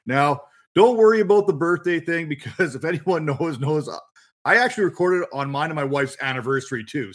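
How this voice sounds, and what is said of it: Canadian accent. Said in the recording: “a Canadian, as you can probably pick up from the accent there”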